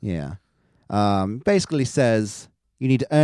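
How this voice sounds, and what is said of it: Usual voice. Nothing is said of it.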